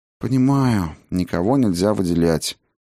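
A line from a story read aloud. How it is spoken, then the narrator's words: Sigh. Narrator (Russian): вздохнула Сигрлин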